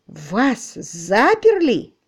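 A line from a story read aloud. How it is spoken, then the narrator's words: Blurted exclamation. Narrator (Russian): не удержавшись, воскликнул Марч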